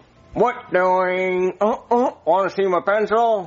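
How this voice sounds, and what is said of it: Silly character voice. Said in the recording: “I want to hear your Jeffy voice. ... That's perfect.”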